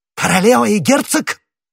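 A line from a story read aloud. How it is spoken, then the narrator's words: Exclaiming. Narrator (Russian): воскликнул Ришелье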